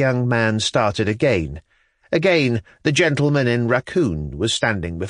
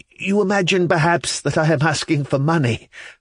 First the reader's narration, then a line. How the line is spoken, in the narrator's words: said the mysterious gentleman with a wry smile, laughing hysterically